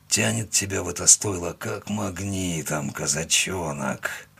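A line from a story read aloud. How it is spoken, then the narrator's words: Mutter. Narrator (Russian): пробормотал он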